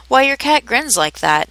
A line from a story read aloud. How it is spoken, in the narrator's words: said Alice a little timidly